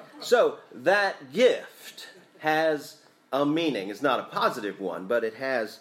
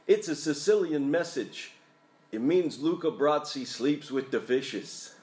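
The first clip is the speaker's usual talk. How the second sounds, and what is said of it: Put-on New York accent. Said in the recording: “let me see if I can do my best New York accent.”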